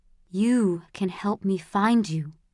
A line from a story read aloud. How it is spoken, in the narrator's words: he whispered